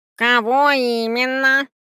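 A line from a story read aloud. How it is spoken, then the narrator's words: Nasal voice. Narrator (Russian): прогнусавила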